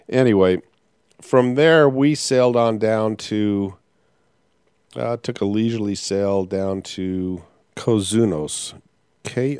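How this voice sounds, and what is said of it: Slightly rough, hoarse voice. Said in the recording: “fighting a bit of a cough... You may hear that my voice is uh, a little rough right now”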